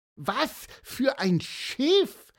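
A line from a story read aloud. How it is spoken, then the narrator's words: Excited question. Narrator (German): fragte Pieper aufgeregt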